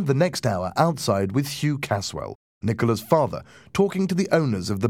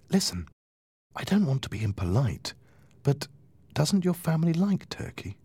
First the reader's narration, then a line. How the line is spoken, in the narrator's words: I whispered to Nicola